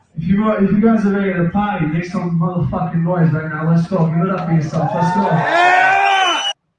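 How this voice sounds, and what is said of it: Strong Boston accent. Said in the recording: “enough with the whole accent, dude. Yeah, we got it. You're from Boston ... He's trying to sound so hard”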